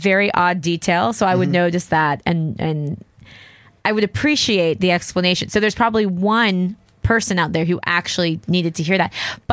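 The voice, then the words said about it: North Carolina accent. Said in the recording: “I want to hear more of your that accent from North Carolina. That's just so wonderful.”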